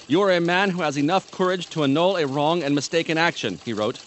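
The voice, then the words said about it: Put-on Libyan accent. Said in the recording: “Is that your Libyan accent? ... Sort of.”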